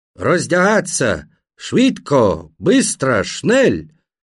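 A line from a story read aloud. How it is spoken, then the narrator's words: Rough accented police shouting. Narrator (Russian): Украинские полицаи, судя по акценту не местные, а явно с запада Украины, кричали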